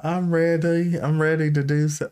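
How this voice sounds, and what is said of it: Put-on accent, not Southern. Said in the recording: “I don't know where this accent's going. Not Southern.”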